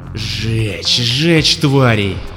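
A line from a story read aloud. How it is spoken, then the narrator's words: Hissing. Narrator (Russian): шипел Моррисон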